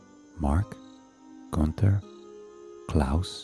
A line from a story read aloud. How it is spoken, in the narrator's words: the queen asked